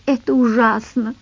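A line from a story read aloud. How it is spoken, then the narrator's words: Sobbing. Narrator (Russian): всхлипывала Луиза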